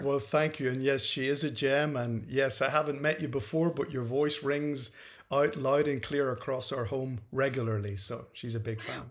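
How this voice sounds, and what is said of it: Northern Irish accent, Scottish-sounding. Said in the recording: “you obviously have a really cool accent ... it's from Northern Ireland ... the Northern Irish accent is much closer to Scottish sounding than the Southern Irish accent ... Shrek is the one that most people think I sound like”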